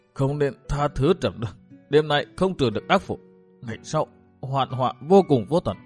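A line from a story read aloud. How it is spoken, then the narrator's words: Trembling voice. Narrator (Vietnamese): La Cô ... bằng giọng nói run rẩy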